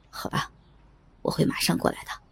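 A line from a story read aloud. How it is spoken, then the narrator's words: Resigned. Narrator (Chinese): 他 最后无奈的说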